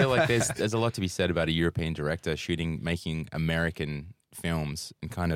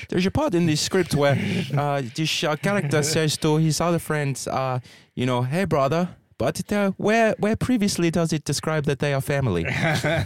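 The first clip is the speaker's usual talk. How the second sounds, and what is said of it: Put-on Dutch accent. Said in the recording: “I'll do it in the Dutch accent.”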